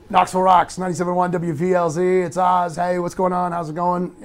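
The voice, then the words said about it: DJ-style radio announcer voice. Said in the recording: “that's kind of the radio voice. It's kind of the radio thing, you know, like, give me your radio voice.”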